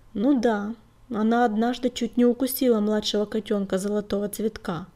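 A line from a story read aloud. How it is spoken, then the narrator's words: Gloomy remark. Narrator (Russian): мрачно подметила Пестрохвостая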